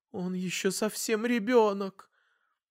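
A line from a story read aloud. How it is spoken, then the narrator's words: Strained, forced words. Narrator (Russian): мама выдавив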